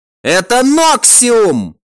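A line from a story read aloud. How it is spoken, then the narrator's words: Cultist's cut-off shout. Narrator (Russian): только и успел прокричать культист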